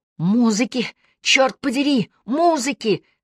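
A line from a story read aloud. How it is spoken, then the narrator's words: Mother yelling. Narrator (Russian): завопила мама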